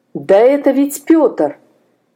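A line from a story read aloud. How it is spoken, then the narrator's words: Horrified exclamation. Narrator (Russian): в ужасе воскликнул Степан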